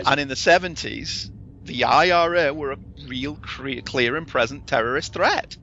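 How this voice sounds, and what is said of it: British accent. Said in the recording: “I grew up in the UK. I'm not going to come as a surprise to you with the accent.”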